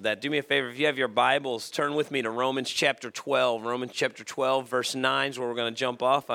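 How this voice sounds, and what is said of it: Strained, sick-sounding voice. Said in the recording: “I apologize for my voice. ... I've been battling a little bit of a cold.”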